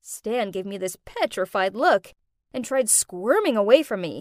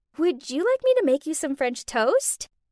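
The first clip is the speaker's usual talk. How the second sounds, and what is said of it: Cute, sweet voice. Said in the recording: “in my cutest voice”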